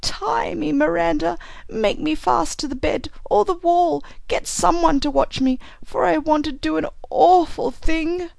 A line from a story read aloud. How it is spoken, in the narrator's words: Grandma Hanscom sank down and clung about her skirts and sobbed